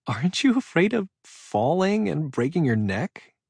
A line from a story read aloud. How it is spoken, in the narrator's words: asked around a laugh